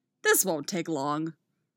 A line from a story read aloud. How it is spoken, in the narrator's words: Oliver says cheerfully